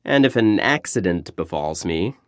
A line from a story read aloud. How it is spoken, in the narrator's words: he laughed